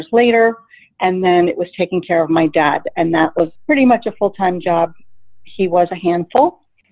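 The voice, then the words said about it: Slight New Jersey accent. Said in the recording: “I know you are from New Jersey... I can hear it in your voice a little bit of an accent.”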